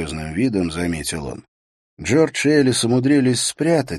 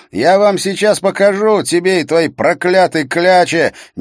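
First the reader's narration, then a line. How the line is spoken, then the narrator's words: Frenzied yell. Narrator (Russian): неистово завопил он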